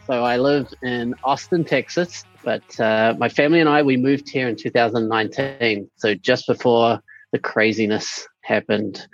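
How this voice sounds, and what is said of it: New Zealand accent. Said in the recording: “This is a New Zealand accent.”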